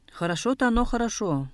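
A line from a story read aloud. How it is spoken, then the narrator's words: Grumbling. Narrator (Russian): проворчал Жамган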